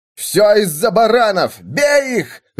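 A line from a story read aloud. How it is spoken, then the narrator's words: Crowd shouting. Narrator (Russian): закричали из толпы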